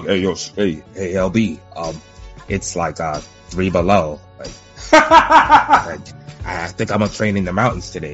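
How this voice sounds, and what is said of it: Imitates another person's voice. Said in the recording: “I can't even do this nigga voice”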